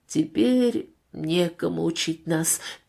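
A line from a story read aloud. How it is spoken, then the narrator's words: Sad added remark. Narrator (Russian): печально добавил вождь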